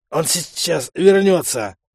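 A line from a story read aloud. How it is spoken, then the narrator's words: Wheezing, sickly host. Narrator (Russian): просипел позеленевший хозяин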